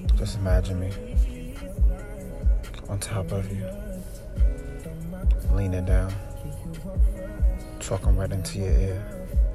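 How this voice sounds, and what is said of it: Smooth, intimate voice. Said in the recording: “You see how smooth my voice is?”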